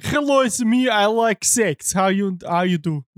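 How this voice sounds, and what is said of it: Put-on foreign accent. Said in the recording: “he did some like accents too”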